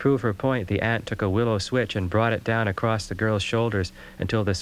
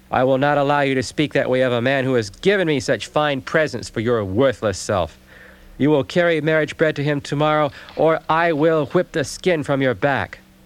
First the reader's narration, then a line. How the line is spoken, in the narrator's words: said the aunt in a loud, angry voice